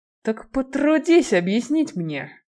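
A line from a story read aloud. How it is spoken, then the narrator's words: Through clenched teeth. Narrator (Russian): процедил сквозь сжатые зубы Киган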